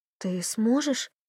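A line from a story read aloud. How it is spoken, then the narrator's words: Hoarse question. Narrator (Russian): хрипло спросила она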